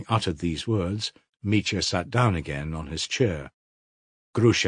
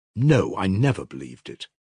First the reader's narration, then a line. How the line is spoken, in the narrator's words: she answered firmly